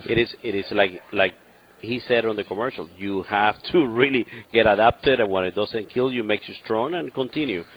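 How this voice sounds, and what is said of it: Cuban accent, great radio voice. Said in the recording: “for someone from Cuba, you do have an impressive accent and a great radio voice”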